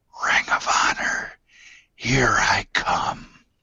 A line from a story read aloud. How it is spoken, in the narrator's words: Maff then cryptically whispered